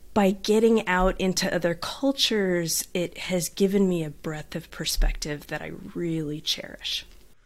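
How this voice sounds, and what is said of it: Southern California twang. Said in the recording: “Now I can hear it in your voice. ... I had the twang. I had the Southern California twang.”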